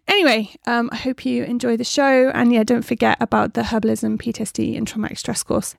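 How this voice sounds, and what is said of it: West Country accent, slightly breathless. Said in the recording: “I sound a bit out of breath ... my West Country accent”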